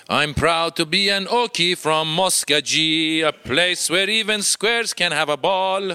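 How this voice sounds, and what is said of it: Singing with thick Persian accent. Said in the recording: “starts to sing in English with his thick Persian accent.”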